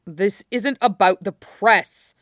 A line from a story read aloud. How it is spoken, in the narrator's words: Shota snapped from the floor